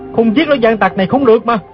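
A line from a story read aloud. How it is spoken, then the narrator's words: Growled through gritted teeth. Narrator (Vietnamese): chàng lại nghiến răng gầm lên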